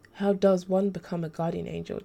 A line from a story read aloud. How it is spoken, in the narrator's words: Daz said